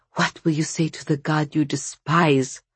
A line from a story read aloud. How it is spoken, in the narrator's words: Vasya whispered, breathing short and thin with fear